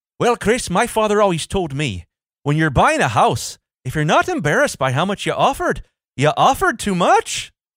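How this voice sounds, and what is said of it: Poor mixed Scottish-Irish accent. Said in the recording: “forgive me if you're Scottish or Irish, because there's my accent's terrible, and it's a little bit of both, even though he was Scottish”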